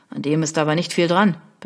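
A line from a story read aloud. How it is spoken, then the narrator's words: Dry remark. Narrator (German): bemerkte trocken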